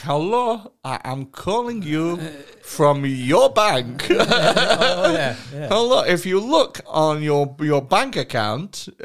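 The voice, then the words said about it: Rude generic put-on accent. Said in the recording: “I'm not doing a specific accent here, I'm keeping it very rude, very general”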